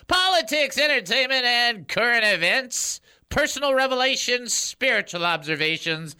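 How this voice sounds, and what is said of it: Higher-pitched announcer radio voice. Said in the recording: “I'm using my really good radio voice ... I'm using that instead of talking down here. I'm talking up here like I'm a radio guy on top of a stool.”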